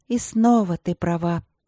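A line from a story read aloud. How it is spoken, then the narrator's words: Sighing. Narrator (Russian): вздохнула Василина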